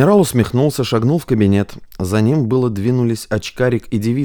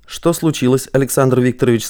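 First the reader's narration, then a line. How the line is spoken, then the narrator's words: Calm. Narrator (Russian): сказал он спокойно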